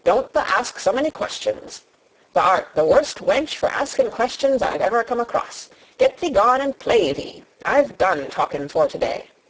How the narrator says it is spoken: he said sharply

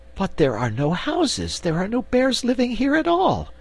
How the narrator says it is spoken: exclaimed Cake

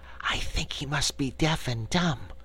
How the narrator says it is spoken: Cake whispered to her companion

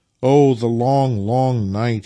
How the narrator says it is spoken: he groaned

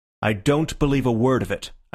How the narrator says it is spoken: I said firmly

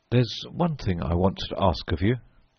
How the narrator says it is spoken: I said quietly

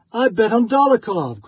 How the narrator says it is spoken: cried a third

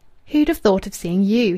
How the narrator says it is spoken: he exclaimed

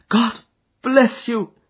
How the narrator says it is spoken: he cried

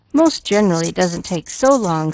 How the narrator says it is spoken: sighed Pollyanna

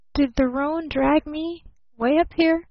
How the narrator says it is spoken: groaned Barton a bit hazily

